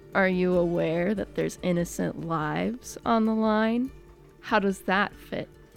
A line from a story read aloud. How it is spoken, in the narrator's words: heaves a long sigh and then says